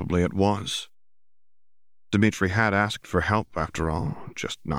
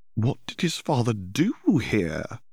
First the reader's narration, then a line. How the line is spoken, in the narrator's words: Hermione exclaimed